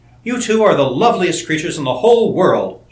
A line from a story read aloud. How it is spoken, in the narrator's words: she cried